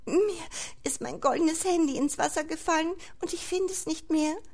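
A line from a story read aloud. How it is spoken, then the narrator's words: Said with small sob. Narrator (German): Unter einem kleinen Schluchzer sagte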